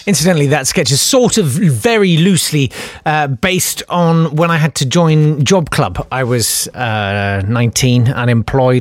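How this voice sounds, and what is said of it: Posh-sounding English accent. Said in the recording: “they hear my accent and they think, I've got the picture. Public school, Oxbridge, certainly.”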